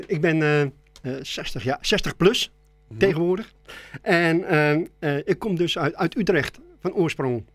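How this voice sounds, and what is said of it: Non-local Dutch regional accent. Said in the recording (Dutch): “Je komt niet uit Goor, dat is duidelijk te horen. ... Je hebt een ander accent.”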